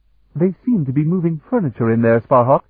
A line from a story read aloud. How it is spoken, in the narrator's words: Bevier laughed